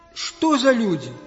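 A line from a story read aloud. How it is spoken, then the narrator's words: Grumbling old fisherman. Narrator (Russian): ворчал старичок-рыбак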